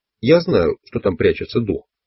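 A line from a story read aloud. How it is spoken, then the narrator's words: Very quiet. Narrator (Russian): очень тихо сообщил он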